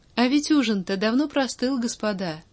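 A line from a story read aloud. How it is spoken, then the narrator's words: Completely carefree tone. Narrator (Russian): совершенно беспечным тоном произнес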